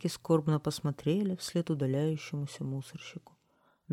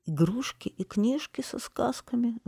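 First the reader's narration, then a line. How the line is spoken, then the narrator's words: Sobbing whiny children. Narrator (Russian): зарыдали маленькие нытики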